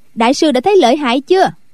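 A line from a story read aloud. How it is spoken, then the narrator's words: Loud laughing. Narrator (Vietnamese): Quách Tường cười to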